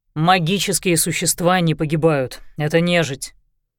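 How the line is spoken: Slightly irritated reply. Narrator (Russian): чуть раздраженно ответил Лещинский

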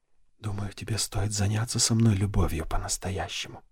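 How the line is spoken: Whispered. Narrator (Russian): прошептала она

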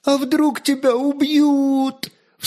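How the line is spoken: Muffled sob. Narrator (Russian): всхлипнула она, уткнувшись ему в плечо

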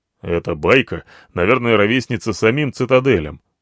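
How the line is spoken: Skeptical snort. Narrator (Russian): хмыкнул скептически Слон

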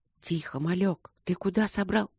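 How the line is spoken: Whisper. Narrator (Russian): раздался шепот майора

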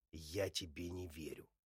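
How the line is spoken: Forced through clenched teeth. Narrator (Russian): сквозь зубы выталкиваю слова

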